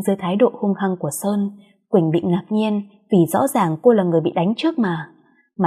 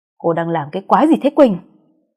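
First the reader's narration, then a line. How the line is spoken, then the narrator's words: Yelling. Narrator (Vietnamese): Sơn quát lên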